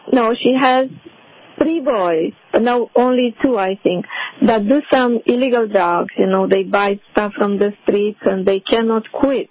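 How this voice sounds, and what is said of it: Strong accent, hard to understand. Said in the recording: “because of your accent, I couldn't tell”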